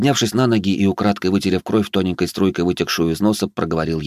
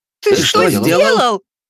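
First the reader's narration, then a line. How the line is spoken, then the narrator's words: Two voices nearly yelling together. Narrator (Russian): В один голос чуть ли не заорали Алекс и Элиза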